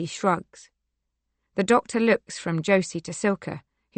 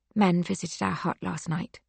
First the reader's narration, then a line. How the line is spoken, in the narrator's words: Silka whispers